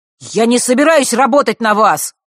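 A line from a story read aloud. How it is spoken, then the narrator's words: Angry shout. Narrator (Russian): зло выкрикнул он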